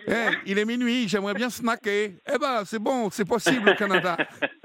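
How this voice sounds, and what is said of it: Failed Canadian accent, sounds Belgian. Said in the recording (French): “Je fais plutôt l'accent belge. Moi, à chaque fois que j'imite les Canadiens, c'est une catastrophe.”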